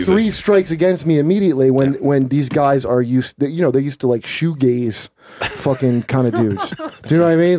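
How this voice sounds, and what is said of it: Heavy New Jersey accent. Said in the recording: “I got a fucking heavy Jersey accent.”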